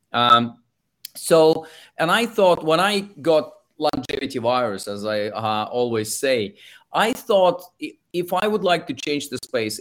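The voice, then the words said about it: Russian accent. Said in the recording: “If you can tell from my accent, I'm originally from Russia”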